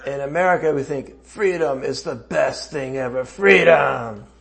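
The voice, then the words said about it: American English accent. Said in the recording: “You probably can tell from my accent that I'm American”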